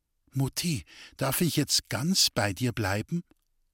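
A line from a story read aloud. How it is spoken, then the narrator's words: Whispering in ear. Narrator (German): flüsterte ihr ins Ohr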